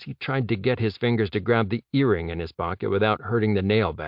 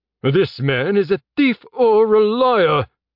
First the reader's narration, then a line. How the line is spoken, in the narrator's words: Elcor shouted